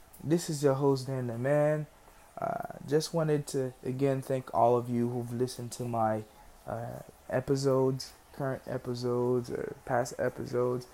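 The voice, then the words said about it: Haitian-accented English. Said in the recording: “a funny accent ... I'm Haitian. I was not born here. I was raised here, but I still speak the English accent with my accent from my native tongue”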